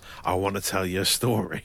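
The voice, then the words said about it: Imitates another person's voice, tired-sounding. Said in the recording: “I'm not sure that's a very good impression of him ... Very tired Michael Caine”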